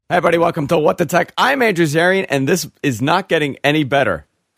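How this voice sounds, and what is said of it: Lost, hoarse, strained voice. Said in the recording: “That was terrible. ... I lost my voice. ... I sound terrible ... Yep. Yeah, you do. ... I was screaming at the top of my lungs.”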